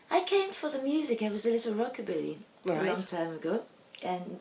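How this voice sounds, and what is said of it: French accent in English. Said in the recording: “I can tell by your accent you're not from London ... I'm from Paris, in France.”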